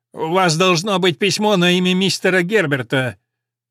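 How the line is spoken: Shrill, impatient voice. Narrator (Russian): Визгливый голос нетерпеливо произнес

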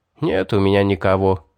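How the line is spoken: Sigh. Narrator (Russian): вздохнул Гелим

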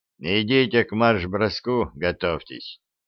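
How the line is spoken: Grumbling. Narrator (Russian): пробурчал замкомбриг

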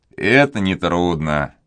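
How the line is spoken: Cheerful. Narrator (Russian): весело отозвался Пьер

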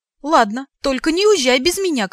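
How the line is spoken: Shout. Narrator (Russian): крикнул я

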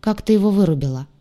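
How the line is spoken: Cold question. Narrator (Russian): холодно поинтересовался парень

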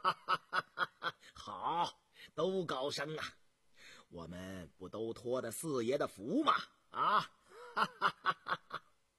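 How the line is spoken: Hearty laughter. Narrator (Chinese): 刘统金大笑

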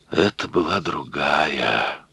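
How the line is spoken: Barely audible whisper. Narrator (Russian): прошептал еле слышно гарсонянин

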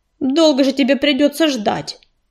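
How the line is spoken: Snorted. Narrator (Russian): фыркнул ежевика

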